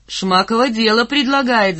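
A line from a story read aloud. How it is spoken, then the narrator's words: Shouting. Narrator (Russian): закричал Попова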